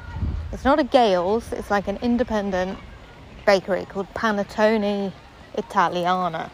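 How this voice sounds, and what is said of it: Bad put-on accent. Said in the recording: “apologies for my horrendous accent”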